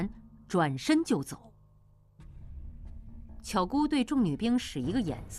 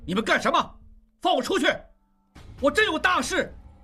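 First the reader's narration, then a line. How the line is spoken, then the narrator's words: Angry shout. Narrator (Chinese): 应济怒声大喊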